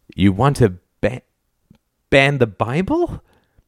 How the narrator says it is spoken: Gorton giggled

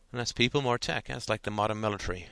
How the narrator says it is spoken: said Ted

